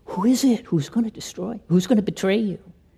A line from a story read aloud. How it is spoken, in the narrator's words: Jesus whispers to John